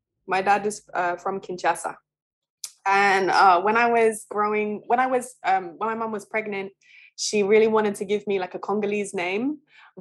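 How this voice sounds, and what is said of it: British accent. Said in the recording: “you can hear from my accent that I'm British.”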